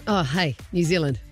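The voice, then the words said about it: Put-on New Zealand accent. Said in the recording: “Let's head to New Zealand. You do the accent better.”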